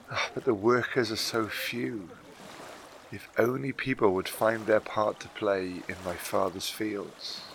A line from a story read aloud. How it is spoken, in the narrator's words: he added quietly